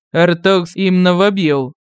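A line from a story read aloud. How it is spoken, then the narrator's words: Solemn deep voice. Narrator (Russian): торжественно пробасил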